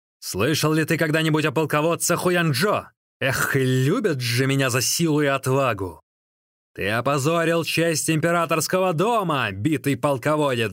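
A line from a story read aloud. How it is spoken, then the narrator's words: Yelling. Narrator (Russian): заорал Джан Цин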